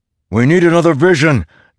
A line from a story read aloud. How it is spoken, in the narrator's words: Delinar shouted against the tide of images